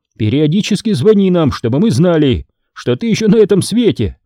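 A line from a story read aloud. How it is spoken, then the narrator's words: Shouting over shoulder. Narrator (Russian): крикнул через плечо отец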